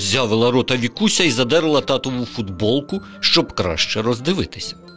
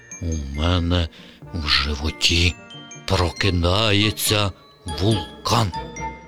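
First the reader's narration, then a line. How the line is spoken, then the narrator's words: Mysterious whisper. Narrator (Ukrainian): Тато таємничо прошепотів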